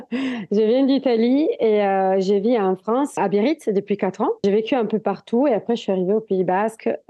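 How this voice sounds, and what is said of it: Strong Italian accent in French. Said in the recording (French): “vous entendez là un petit accent, même plus que petit”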